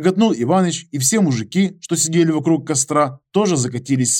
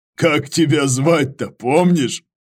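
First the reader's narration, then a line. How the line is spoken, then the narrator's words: Question after laughing. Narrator (Russian): Просмеявшись, спросил Иваныч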